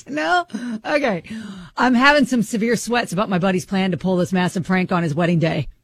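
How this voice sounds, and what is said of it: Put-on dude voice. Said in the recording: “I'll put my dude voice on ... doing this all in a dude voice”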